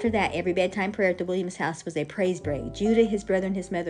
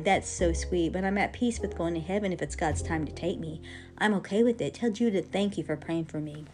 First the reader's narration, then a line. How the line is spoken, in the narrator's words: Sister Shirley calmly replied